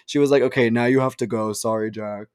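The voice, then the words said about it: Imitates another person's voice. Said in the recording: “that was a that impression”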